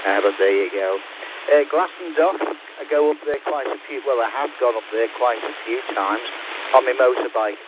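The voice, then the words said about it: Mixed UK accent, Liverpool tinge. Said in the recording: “I've got a bit of an unusual dialect because I was born in Liverpool and I've lived in several places in the UK. But it seems to be creeping back on me, the Liverpool accent.”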